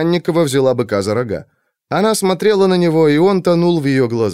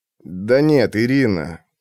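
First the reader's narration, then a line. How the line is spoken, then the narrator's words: Muttering under breath. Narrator (Russian): забормотал капитан под нос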